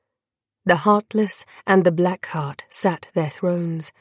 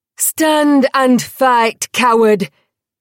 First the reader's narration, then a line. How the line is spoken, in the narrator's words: Alex roared